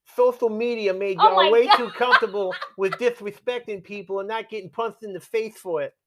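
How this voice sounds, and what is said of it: Speaking with a twang. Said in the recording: “Why did my twang? ... Yeah, you're giving a twang.”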